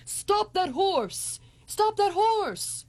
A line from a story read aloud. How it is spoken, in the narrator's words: He was shouting at the top of his lungs